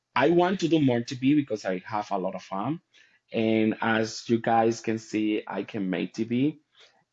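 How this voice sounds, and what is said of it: Strong accent. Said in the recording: “I have a strong accent. I can hear and see that”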